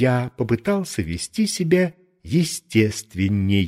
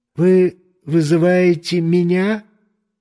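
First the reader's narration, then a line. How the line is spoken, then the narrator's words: Timid question. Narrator (Russian): робко спросил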